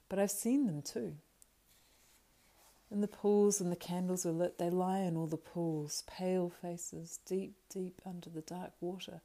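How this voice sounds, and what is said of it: Dreamlike, faraway voice. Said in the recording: “in a dreamlike voice”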